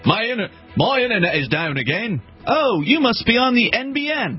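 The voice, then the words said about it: Poor put-on Australian accent. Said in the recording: “That was probably a terrible Australian accent.”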